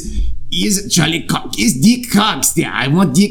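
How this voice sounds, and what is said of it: Gruff, unconvincing put-on Russian accent. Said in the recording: “That's German. ... Russian. That's Russian. She's German, but I just did a Russian accent. ... I don't know what accent that was. ... That was something weird. ... Gruff Russian accent. ... I don't do ... Accents well.”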